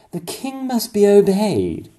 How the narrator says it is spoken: he cried

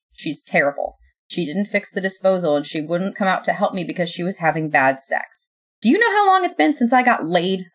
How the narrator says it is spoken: I spat

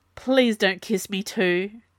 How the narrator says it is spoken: gasped Jules

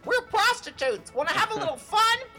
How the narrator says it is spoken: the females started yelling at the male parrots

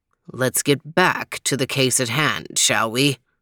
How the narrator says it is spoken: He muttered stiffly

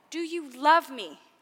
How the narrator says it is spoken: he said

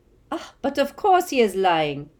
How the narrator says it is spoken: cried Madame Maxime

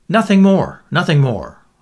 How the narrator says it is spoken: Lord Caterham assured them hastily

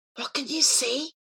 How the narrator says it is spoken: he whispered

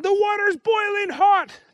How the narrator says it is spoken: yelled

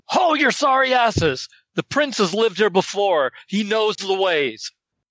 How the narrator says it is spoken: shout at them

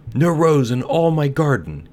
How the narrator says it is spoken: he cried, and his beautiful eyes filled with tears

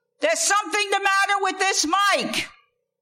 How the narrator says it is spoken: yells

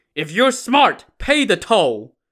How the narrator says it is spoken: Li Zhong and Zhou Tong yelling

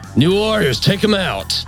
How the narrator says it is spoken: yell down

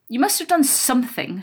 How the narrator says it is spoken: said crossly

